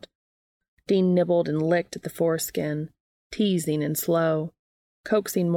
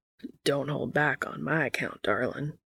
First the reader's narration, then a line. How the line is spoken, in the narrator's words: he cajoled, his voice already a husky rumble